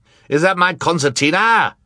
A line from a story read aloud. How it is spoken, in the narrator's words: Sir barked